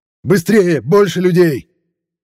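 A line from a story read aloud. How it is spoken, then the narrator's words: Archmage shouting. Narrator (Russian): закричал архимаг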